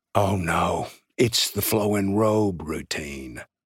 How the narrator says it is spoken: Jake, seated only a few feet away, whispered to Libby

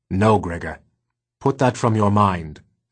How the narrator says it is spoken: said Vicus firmly

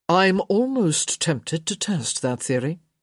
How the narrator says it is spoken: he murmured

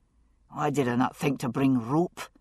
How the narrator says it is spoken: Jamie muttered

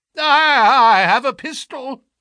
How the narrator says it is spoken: it cried

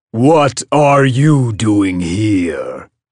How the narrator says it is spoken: a voice boomed

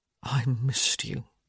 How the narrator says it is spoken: he said, his voice husky with desire

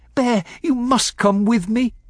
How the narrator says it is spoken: I urged as much as begged

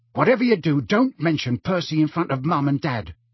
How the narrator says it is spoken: Ron told Harry in a tense voice

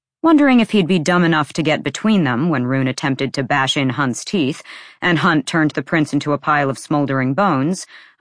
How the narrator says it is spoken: Isaiah said quickly

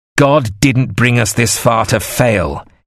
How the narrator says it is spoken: he shouted confidently

